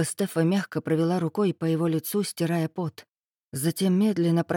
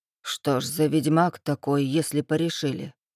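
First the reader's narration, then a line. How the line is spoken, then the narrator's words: Distrustful grumble. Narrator (Russian): недоверчиво проворчал Макс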